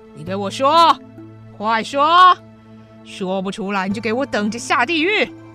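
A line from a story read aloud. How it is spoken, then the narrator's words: Loud angry demand. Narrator (Chinese): 泽荣不相信眼前这个少年会懂得佛教的经典 大声说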